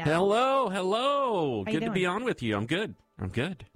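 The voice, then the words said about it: Exaggerated radio announcer voice. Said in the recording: “I don't know what voice that is. ... a radio announcer voice?”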